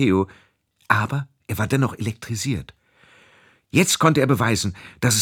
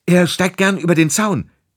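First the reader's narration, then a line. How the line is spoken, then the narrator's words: Shout. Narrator (German): rief er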